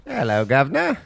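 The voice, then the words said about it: Put-on British accent. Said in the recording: “Show her your British accent you've been working on.”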